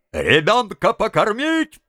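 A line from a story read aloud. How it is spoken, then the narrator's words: Distant shout through cupped hands. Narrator (Russian): приставив руки рупором, крикнули из задних рядов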